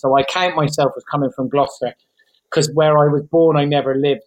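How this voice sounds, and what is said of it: Bristolian English accent. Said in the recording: “you sound quite Bristolian. There's a lot of Bristolian in that accent.”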